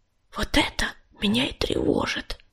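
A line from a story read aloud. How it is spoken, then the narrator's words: Whisper. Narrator (Russian): шепнула Крутобоку невидимка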